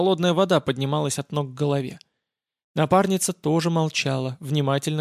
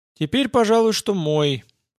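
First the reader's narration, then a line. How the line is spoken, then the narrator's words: Dejected. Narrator (Russian): как-то уныло произнесла она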